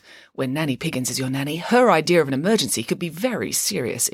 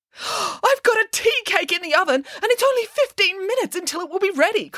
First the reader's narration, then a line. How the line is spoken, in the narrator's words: cried Nanny Piggins